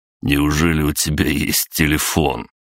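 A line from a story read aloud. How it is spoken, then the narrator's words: Stranger's skeptical snort. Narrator (Russian): хмыкнул незнакомец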